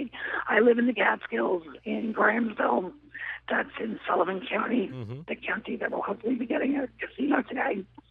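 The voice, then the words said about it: Voice affected by a disorder. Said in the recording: “Excuse my voice, please. It's a voice disorder.”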